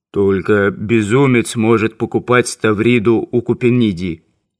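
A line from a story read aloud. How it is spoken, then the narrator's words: Muffled bass voice. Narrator (Russian): кто-то приглушенно сказал басом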